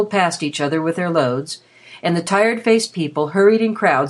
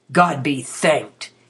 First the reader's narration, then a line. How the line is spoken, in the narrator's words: he said in his deep growl of joy